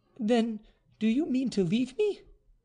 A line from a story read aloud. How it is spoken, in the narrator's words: cried the marquise, apparently terrified